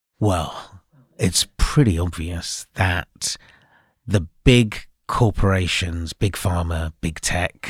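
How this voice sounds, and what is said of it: Conspiracy theorist character voice. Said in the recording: “can you do a conspiracy theorist voice?”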